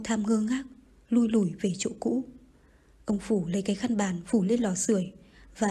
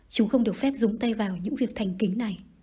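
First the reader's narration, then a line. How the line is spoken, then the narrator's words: Irritated snap. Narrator (Vietnamese): Ông Phủ gắt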